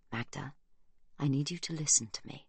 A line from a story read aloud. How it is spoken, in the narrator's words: he whispers